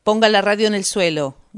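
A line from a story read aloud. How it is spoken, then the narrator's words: Shouting. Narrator (Spanish): gritó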